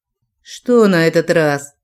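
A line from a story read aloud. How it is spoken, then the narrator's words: Tired, resigned man. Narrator (Russian): тон мужчины превратился в устало обречённый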